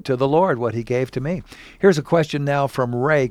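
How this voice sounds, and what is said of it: Radio announcer voice. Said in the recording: “He's got that radio announcer voice going on”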